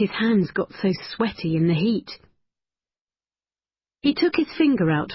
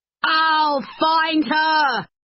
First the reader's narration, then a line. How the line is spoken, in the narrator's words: shouted